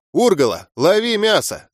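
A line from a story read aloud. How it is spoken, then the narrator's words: Yell. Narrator (Russian): заорал я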